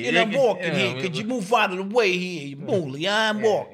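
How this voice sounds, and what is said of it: Exaggerated movie New York accent. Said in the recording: “the movie version of what a New York accent sounds like”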